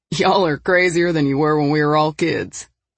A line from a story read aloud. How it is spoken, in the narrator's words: he laughed